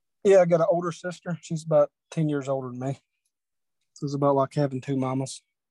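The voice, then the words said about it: Regional accent. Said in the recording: “I kind of would have guessed immediately from your accent that you're probably from that region.”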